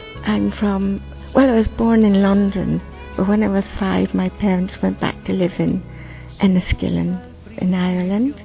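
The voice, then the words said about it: Irish accent. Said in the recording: “I just went to Ireland to get my accent. and it's never left”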